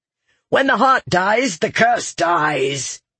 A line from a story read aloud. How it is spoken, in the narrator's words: growled, his fear changing to anger